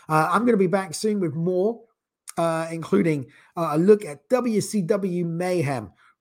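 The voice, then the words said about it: Strained, failing voice. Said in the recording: “my voice is beginning to go”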